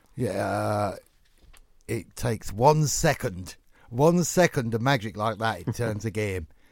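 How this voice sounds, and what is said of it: Brian Clough Nottingham accent impression. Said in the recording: “the Brian Clough interview afterwards ... it's a very good accent. ... I was quite pleased with Nottingham there”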